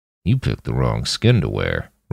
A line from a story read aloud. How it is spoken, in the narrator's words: Roland muttered at him